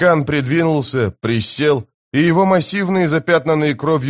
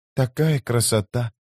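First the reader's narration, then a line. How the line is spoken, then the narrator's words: Whisper. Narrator (Russian): прошептала она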